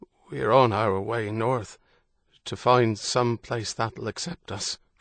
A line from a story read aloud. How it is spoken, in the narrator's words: Father Michael said, his voice faint